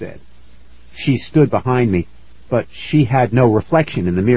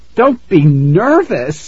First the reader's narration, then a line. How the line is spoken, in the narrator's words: I cried